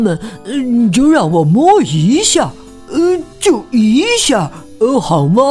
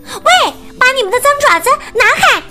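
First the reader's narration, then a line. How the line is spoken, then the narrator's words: Shouting. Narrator (Chinese): 他们大喊说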